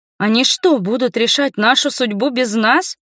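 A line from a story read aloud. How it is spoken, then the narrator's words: Indignant question. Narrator (Russian): возмущенно спросила я у Йена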